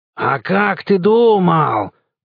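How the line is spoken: Growl. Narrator (Russian): прорычал Яков

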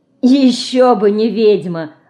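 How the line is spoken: Loud laughter. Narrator (Russian): расхохотался Жук

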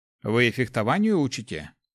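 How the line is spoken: Snort. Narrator (Russian): хмыкнул Гош

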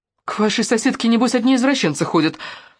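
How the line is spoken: Shrill squeal. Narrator (Russian): взвизгнула она

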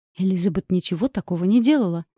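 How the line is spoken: Count's heated exclamation. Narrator (Russian): горячо воскликнул граф Дарье

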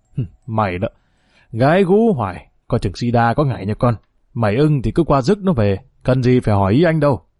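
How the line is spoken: Laughing reply. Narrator (Vietnamese): Long Chín Ngón lại bật cười đáp

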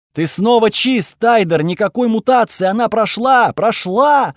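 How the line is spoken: Shouting while running. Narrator (Russian): Афена кричала и бежала ко мне, сама наполовину монстр

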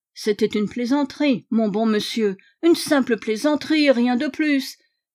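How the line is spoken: Constant whining. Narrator (French): gémissait-il sans cesse

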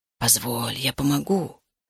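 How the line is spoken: Whispering. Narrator (Russian): шептал он

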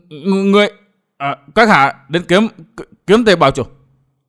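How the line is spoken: Stammering. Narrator (Vietnamese): Hồ Tâm Hiền lắp bắp nói

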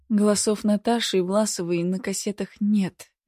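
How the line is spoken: Sighing. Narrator (Russian): вздохнула

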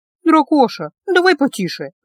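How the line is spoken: Pleading. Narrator (Russian): взмолилась Гелла

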